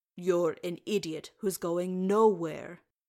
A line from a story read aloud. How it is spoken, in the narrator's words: Oin said sternly